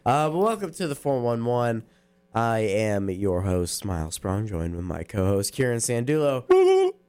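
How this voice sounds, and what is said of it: Voice deeper than usual. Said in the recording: “my voice is a little deeper in case you can't tell”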